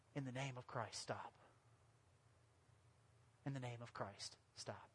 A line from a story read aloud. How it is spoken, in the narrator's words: While he was pleading